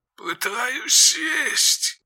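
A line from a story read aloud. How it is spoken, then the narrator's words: Creaky voice over headphones. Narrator (Russian): проскрипело в наушниках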